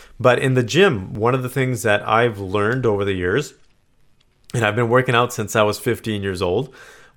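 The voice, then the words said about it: Strained, failing voice. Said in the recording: “My voice is going on me right now.”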